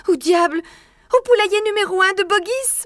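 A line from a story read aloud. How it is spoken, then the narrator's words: Mumbling fox cub. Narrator (French): bredouilla le renardeau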